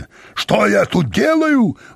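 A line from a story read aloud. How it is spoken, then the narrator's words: Roaring with full force. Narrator (Russian): взревел он изо всех сил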